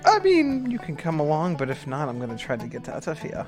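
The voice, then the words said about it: Character's put-on accent. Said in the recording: “I'm back in my accent again.”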